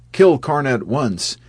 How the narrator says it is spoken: The Pandava troop shouted to Arjuna

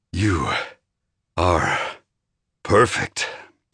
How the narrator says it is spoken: I growled

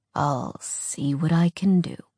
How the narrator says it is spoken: he said, his voice rumbling with amusement

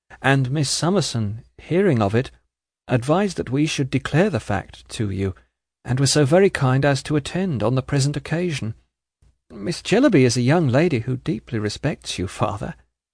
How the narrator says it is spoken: faltered Prince

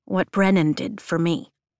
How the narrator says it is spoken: she says softly

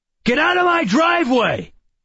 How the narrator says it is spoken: He shouted

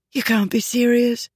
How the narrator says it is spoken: she breathed

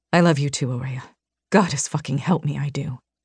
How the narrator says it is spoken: he whispered

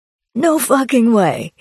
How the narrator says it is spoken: he exclaimed

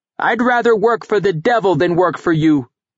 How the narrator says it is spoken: the boy shouted

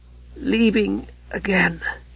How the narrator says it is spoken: he gasped for air

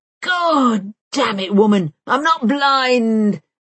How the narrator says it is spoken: roars Bank

